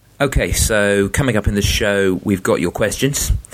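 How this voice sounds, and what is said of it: English accent. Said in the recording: “a test-playing nation that wasn't England, just so people don't have to put up with my accent all the time”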